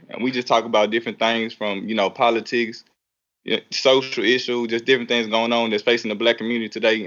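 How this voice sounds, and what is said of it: Noticeable regional accent. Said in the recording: “Do you hear this accent?”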